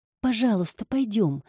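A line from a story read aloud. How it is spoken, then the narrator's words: Pleading. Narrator (Russian): взмолилась Паулина, которая еще не хотела оставаться с Виктором наедине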